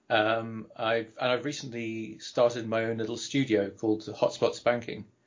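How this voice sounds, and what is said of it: English accent from southwest London. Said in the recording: “folks may notice your accent ... originally from Southwest London ... in Surrey, in England”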